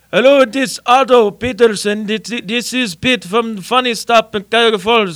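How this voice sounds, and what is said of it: Thick Lebanese accent. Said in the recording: “Pete, with this thick Lebanese accent”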